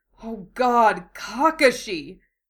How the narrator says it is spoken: he groans

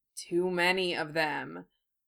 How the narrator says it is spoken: Harry muttered

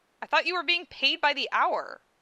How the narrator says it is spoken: she said, impatiently

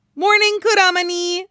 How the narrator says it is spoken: Naruto says brightly

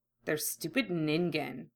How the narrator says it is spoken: Hiei muttered

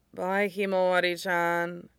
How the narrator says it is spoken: Shinso murmured groggily

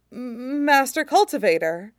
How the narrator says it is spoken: stammers, looking up at him helplessly

